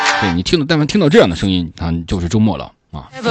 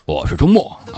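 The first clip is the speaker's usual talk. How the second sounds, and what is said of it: Imitates another person's voice. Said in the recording (Chinese): “我这个模仿的 是 不 这 像 样 吗？ ... 差不多吧 ... 有点像”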